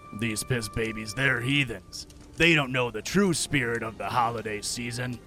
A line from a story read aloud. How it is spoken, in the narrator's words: The judgy grumbled to himself